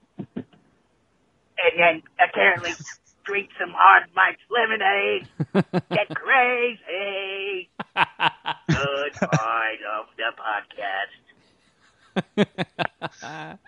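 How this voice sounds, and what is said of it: Mishmash of imitated comedic voices. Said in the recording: “good Shuddy impression. There's a little bit of Shuddy, a little bit of Cartman, a little bit of Sandler. ... an interesting mishmash of voices you're doing there”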